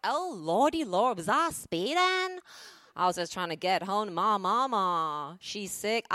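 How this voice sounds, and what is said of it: Put-on charming Southern accent. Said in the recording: “she'll just whip out a southern accent ... how charming your accent is to New Yorkers”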